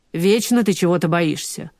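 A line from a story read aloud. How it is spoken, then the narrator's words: Irritated. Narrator (Russian): раздраженно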